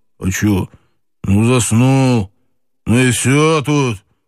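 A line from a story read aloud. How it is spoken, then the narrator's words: Deep, booming, muffled. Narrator (Russian): прогудел полковник так густо, будто говорил это, сидя под бочкой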